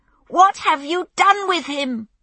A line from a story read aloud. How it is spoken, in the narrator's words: she screamed